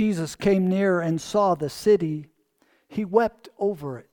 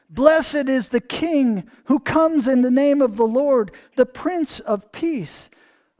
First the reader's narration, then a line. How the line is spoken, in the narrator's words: the people shouted